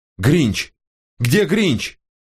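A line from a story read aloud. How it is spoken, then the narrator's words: Yelling. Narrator (Russian): заорал он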